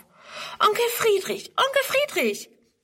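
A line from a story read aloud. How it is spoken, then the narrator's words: Calling out. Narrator (German): ruft sie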